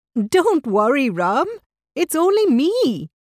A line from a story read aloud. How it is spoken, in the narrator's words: laughed Rita